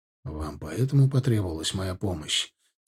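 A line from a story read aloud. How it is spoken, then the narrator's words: Quiet, halting question. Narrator (Russian): тихо, с паузами спросил Ардан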